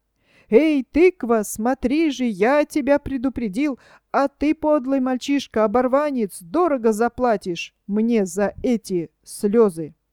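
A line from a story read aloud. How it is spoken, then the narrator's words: Shouted while fleeing. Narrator (Russian): удирая, прокричал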